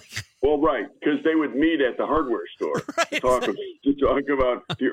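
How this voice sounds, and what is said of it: Usual voice. Nothing is said of it.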